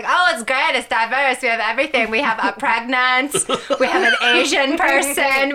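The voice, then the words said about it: Imitates another person's accented voice. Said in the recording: “A really bad accent, too ... that wasn't that far off from being accurate”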